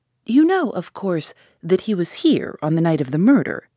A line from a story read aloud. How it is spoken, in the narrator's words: he asked